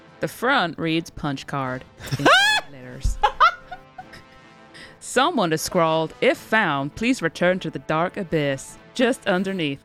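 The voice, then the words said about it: Attempted American accent. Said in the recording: “I'm going to try it in an American accent now ... Well, you need that as German.”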